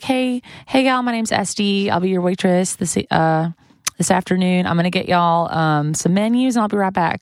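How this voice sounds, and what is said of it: Put-on Southern US accent. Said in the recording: “acting like you're from like ... I told people that I was from Knoxville, Tennessee ... either Chattanooga or Knoxville ... it goes in Australian also randomly ... It's awful ... it was passable”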